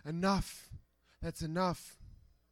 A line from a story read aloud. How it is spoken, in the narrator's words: weakly whispering